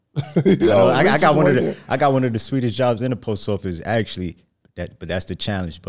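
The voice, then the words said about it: Brooklyn New York accent. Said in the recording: “you definitely have the Brooklyn accent. You got a New York accent for sure.”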